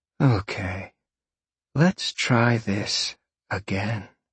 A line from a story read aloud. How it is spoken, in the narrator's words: she purred